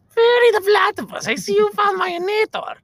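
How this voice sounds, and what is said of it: Heinz Doofenshmirtz impression. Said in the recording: “I can do some voice impersonations ... You want me to give you a Heinz Doofenshmirtz?”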